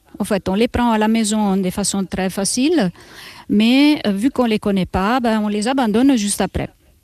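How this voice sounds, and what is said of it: Italian accent speaking French. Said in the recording (French): “mon accent, vous saurez peut-être que je viens d'Italie”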